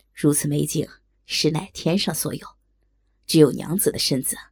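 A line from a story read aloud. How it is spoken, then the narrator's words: Awestruck sigh. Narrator (Chinese): 高衙内惊得呆了，叹道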